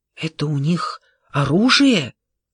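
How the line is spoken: Whispering. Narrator (Russian): прошептала

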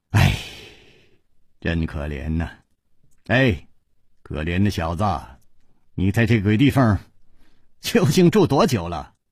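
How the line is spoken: Pitying sigh. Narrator (Chinese): 楚留香忍不住叹道

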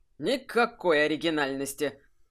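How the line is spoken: Scoffing snort. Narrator (Russian): хмыкнул Кайфат

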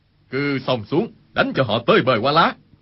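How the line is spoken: Loud shout. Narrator (Vietnamese): Khu Sử Cơ quát lớn

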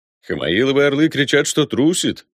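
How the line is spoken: Amused grunt. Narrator (Russian): хмыкнул Ламброс

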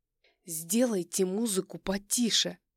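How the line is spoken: Through gritted teeth. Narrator (Russian): Процеживаю сквозь зубы

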